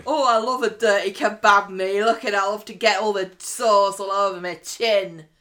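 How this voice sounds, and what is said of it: Put-on Liverpudlian woman's accent. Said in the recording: “Was she another Liverpudlian lady as well? ... I'm doing a voice”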